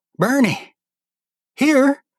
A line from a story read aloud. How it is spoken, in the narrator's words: He spat out rubber and croaked